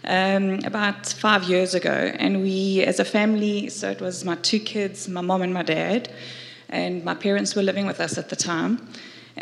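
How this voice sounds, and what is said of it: Emotional voice. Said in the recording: “I'm getting emotional now, which doesn't happen often.”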